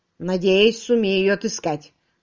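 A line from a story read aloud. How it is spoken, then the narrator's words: Gloomy. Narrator (Russian): мрачно сказал Томас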